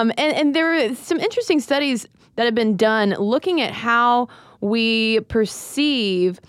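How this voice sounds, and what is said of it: Usual voice. Nothing is said of it.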